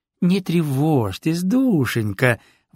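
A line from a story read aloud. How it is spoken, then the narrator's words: Exclaiming. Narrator (Russian): воскликнула она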